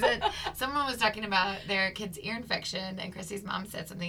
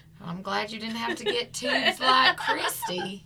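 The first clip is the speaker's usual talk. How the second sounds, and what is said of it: Poor imitation of a twang. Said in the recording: “she has that twang. Sorry, sorry, that's not a good twang. ... It's not a good impression”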